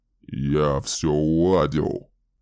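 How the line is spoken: Gruff, unconvincing objection. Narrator (Russian): возразил Дэмин грубым голосом, но слова его звучали не очень убедительно

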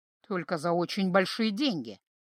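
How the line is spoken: Old stargazer muttering. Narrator (Russian): пробормотал звездочет

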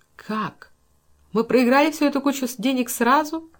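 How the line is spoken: Mock-horrified exclamation. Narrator (Russian): С притворным ужасом воскликнула Эйлин

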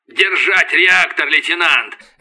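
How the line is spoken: Barked command. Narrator (Russian): рявкнул Касьян

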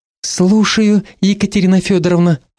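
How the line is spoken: Ingratiating, soft start. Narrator (Russian): вкрадчиво начала я

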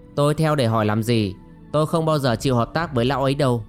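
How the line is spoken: Cold scoff. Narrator (Vietnamese): Yến Thất cười nhạt

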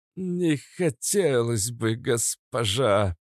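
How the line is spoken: Patient man speaking through teeth. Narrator (Russian): процедил терпеливый эстонец

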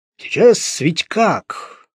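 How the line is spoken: Gloomy deep bass, policeman. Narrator (Russian): мрачно басил участковый Петров

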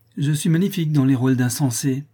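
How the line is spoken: Exclaimed. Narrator (French): s'écria Laurence

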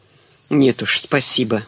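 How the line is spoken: Grumbled. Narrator (Russian): буркнул Кузин

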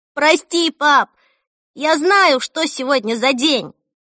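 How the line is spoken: Shout. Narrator (Russian): крикнула Эльса

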